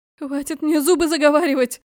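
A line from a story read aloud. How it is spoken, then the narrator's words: Howl. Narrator (Russian): взвыла Лика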